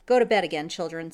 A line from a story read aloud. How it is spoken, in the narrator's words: said she sharply